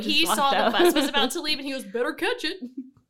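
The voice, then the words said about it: Put-on Southern US accent. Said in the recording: “That was very southern.”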